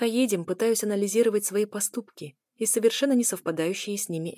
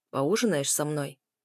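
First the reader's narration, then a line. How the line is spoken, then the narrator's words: Quiet question. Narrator (Russian): спрашивает Арс тихо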